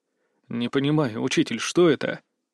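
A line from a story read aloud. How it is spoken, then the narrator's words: Strained, barely calm. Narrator (Russian): Я старался говорить спокойно, хотя спокойствие стремительно терял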